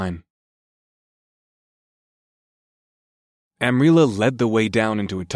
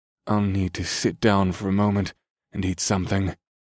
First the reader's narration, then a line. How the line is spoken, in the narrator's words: Skurd sighed